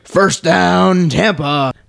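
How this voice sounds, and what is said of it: Stadium announcer voice. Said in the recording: “my best impression of their stadium announcer”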